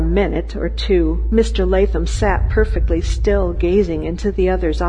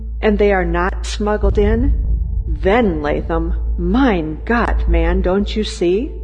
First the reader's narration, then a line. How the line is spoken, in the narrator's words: he continued slowly